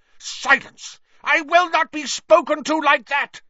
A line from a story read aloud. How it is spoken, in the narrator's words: Snape shrieked